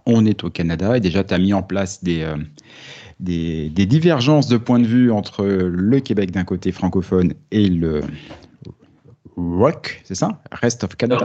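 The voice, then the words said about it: Strong French accent on English. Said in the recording (French): “mon accent tellement français”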